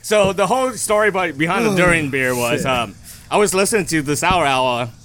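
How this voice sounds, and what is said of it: Accented English with weak R sounds. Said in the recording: “I'm sorry for my accent. I am really sorry for my accent. ... There's a lot of R's in that title. ... I can't really hear ... one R.”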